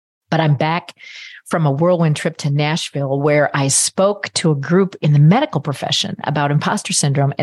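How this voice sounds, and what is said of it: Sick-sounding voice. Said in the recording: “I have caught quite a cold ... my apologies for how my voice sounds”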